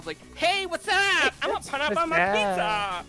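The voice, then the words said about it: Valley girl voice. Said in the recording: “Valley girl ... your white girl personation? ... Valley girl ... a girl impersonation”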